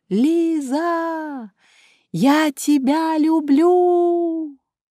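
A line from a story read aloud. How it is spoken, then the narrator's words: Crying and laughing girl. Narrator (Russian): Девушка плакала и смеялась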